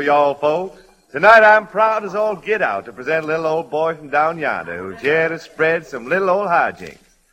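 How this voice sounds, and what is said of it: Exaggerated southern accent. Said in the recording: “southern accent ... A dialect like you have there at the moment ... hoe cake accent”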